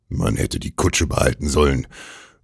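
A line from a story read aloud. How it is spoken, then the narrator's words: Old man murmuring. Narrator (German): murmelte der alte Mann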